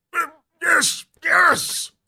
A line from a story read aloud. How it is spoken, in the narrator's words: Merlin mutters impatiently